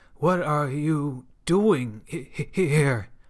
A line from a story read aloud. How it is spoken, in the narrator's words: stutters